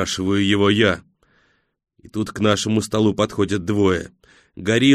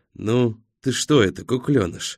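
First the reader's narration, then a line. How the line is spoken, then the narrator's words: Affectionate. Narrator (Russian): Ласково обращается к 38-му один из них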